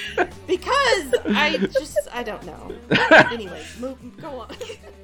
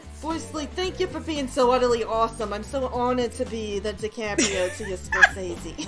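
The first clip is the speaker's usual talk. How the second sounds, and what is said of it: Put-on New York accent. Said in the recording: “Was like New York. That was like New York. ... That's pretty good, actually.”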